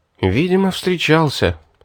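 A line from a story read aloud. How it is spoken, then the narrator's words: Regretful sigh. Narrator (Russian): с сожалением вздохнул я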